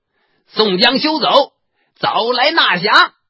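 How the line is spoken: Distant shout. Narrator (Chinese): 只隔一二里路，只听得叫道

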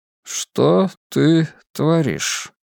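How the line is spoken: Quiet, unpleasant. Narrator (Russian): Котов говорил негромко, и это было очень неприятно

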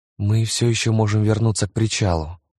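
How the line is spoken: Gentle reminder. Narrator (Russian): мягко напомнила Лиззи

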